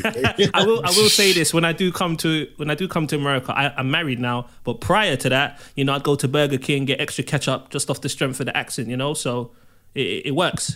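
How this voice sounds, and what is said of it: British accent. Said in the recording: “that British accent ... It sounds so regal, and at times it sounds sexy”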